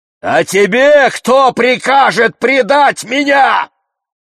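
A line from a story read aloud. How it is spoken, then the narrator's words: Thunderous shout. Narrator (Russian): вскричал я громовым голосом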